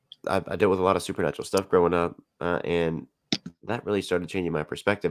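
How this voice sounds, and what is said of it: Congested, stuffy voice. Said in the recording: “my voice sounds weird, it's because I'm super congested.”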